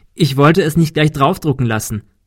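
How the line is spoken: Laughing. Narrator (German): lachte Kim

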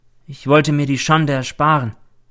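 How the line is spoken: Plain. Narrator (German): sagt sie

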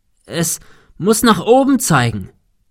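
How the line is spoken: Shouted into wind. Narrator (German): rief dem Wind entgegen

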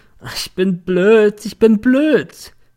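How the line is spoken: Drunken remorseful sobbing. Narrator (German): Sie hatte sich besoffen, hatte nun einen moralischen und schluchzte in einer Tour

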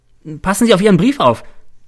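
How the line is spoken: Called out. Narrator (German): ruft mir Caesar zu

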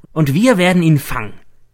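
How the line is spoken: Excited shout. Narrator (German): ruft er begeistert

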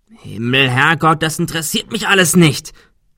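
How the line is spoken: Shout. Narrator (German): schrie Adrian

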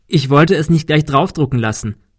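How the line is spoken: Laughing. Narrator (German): lachte Kim

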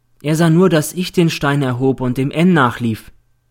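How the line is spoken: Plain. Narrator (German): sagte Eva

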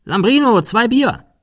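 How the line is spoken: Calling inside. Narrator (German): Cecil rief nach innen

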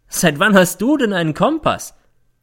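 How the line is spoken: Mocking question. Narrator (German): fragt, und es klingt wie Hohn

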